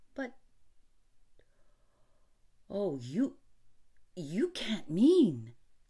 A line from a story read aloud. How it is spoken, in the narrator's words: gasped Rainsford